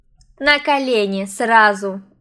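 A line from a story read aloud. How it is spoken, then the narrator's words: Sudden cold commanding tone. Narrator (Russian): Внезапно холодным властным тоном сказала Эля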